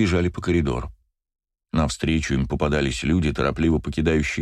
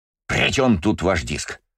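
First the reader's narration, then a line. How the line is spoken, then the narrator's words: Snapping retort. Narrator (Russian): огрызнулся Йори Коби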